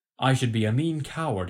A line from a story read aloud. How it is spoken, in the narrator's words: he cried